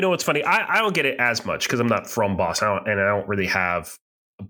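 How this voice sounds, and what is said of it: Usual voice. Nothing is said of it.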